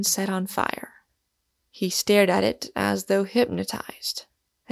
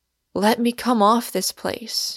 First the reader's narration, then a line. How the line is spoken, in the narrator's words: cried